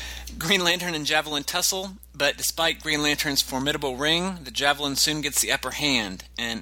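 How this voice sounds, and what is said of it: Usual voice. Nothing is said of it.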